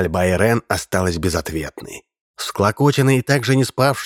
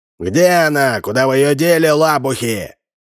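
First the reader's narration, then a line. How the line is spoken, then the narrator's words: Shout. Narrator (Russian): закричал он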